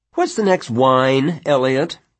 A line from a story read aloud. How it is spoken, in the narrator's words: Janet asked brightly